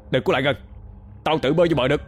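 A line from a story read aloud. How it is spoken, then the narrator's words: Loud shout. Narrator (Vietnamese): cậu hai quát lớn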